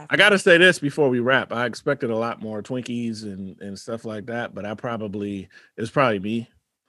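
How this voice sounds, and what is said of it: Announcer-like voice. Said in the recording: “You really have like this announcer voice”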